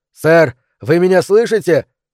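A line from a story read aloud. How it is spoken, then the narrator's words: Shout. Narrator (Russian): крикнул он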